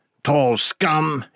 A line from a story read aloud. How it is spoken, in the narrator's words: spat